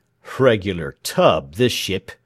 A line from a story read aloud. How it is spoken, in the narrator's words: growled the man who knew it all